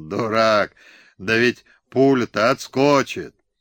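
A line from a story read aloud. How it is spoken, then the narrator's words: Laughing shout. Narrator (Russian): Пугачев захохотал, погрозил Хлопуше пальцем и крикнул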